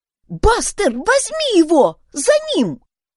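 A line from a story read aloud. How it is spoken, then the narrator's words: Excited command. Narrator (Russian): взволнованно скомандовала Юнис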